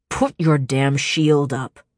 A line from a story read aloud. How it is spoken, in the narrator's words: he growled